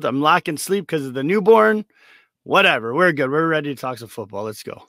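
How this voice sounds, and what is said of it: Sick-sounding voice. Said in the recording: “Sorry about my voice. Just getting kicking a cold here.”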